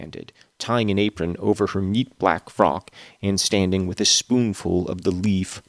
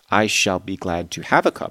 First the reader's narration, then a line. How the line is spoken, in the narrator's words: I answered